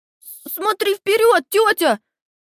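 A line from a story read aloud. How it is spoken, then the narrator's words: Frightened scream. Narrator (Russian): В страхе завопил Торрен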